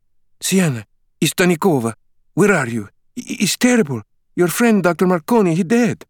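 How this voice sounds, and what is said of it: Panicked woman, thick Eastern European accent. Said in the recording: “a panicked woman began leaving a message in a thick Eastern European accent.”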